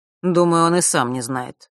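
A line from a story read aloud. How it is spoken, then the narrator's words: Gloomy. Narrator (Russian): мрачно произнес Нортон-старший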